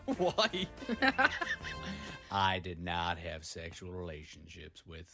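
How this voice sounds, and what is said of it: Imitates another person's voice. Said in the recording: “Your best Bill Clinton impression.”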